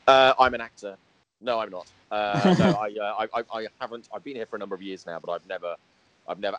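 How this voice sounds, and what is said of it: British accent. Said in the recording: “you don't sound American ... my British accent has got stronger since I've been here ... a touch of the Hugh Grant about me”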